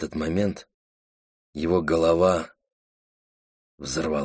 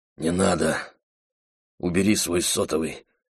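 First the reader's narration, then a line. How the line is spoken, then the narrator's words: Hoarse rasp. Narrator (Russian): прохрипел Дэн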